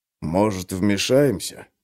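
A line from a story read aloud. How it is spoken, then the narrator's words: Whispered. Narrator (Russian): прошептал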